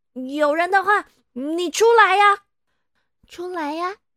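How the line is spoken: Loud question. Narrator (Chinese): 他只好再大声的问

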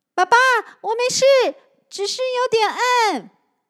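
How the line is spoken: Loud, suppressing nervousness. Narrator (Chinese): 他忍住紧张，大声应着

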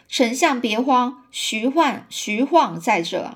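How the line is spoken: Sudden, loud. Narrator (Chinese): 忽然呢，有人高声说

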